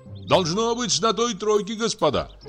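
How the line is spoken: Shouting. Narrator (Russian): крикнул Егор Егорыч

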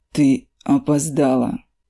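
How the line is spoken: Calm young man. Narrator (Russian): Спокойно повторяет парень

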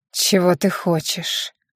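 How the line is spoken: Weary question. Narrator (Russian): устало спросил Кардалис

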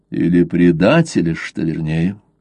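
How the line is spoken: Calm. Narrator (Russian): спокойно сказал Блад

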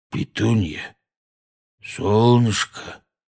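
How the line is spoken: Tender cooing. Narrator (Russian): нежно проворковал дядя Вернон

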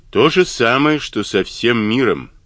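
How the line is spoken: Gloomy answer. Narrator (Russian): мрачно ответил он

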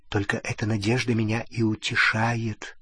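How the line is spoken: Whisper. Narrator (Russian): прошептала она

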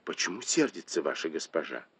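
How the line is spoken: Quiet puzzled question, maid. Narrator (Russian): служанка, ничего не понимая, тихонько спросила у Пин Эр

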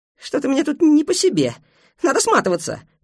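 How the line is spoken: Squeaking. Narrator (Russian): пискнула Мо

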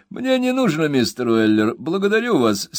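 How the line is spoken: Laughing speech. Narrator (Russian): смеясь сказал королевский вирисконсульт Снабби

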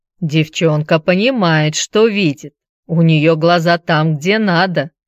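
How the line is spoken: Old man's mutter under breath. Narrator (Russian): Пробурчал дед себе под нос

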